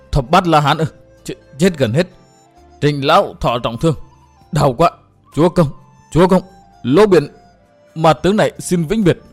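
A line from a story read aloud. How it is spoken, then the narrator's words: Terrified stammering. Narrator (Vietnamese): Vẻ kinh hoàng lại hiện ra nơi ánh mắt, Lỗ Biển lắp bắp đôi môi tái nhợt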